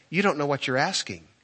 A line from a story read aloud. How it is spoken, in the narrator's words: he said very kindly to her